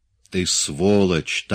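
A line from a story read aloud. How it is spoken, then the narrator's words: Quiet. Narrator (Russian): так же тихо ответил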